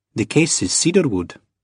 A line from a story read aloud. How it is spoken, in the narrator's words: she said